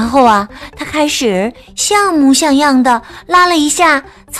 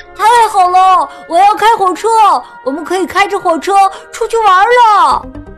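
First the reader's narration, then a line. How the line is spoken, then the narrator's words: Excited shouting. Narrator (Chinese): 他激动的大喊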